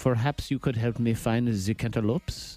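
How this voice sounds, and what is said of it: Put-on French accent. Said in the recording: “pretend that I have a French accent... My French accent is like this... That's 100% accurate.”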